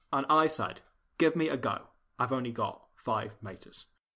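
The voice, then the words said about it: Michael Caine impression. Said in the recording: “say that in ... Michael Caine's accent”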